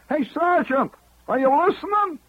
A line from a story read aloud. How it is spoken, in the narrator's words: He hollers